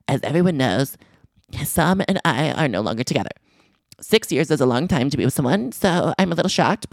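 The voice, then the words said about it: Imitates another person's voice. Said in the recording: “when I read direct quotes, I like to do an impression.”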